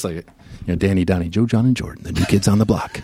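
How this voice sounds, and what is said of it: Announcer voice. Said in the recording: “I've been practicing my, my, my, my announcer voice.”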